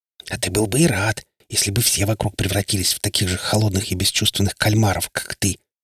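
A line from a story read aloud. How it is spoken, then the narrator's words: Venomous hiss. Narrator (Russian): прошипела в ответ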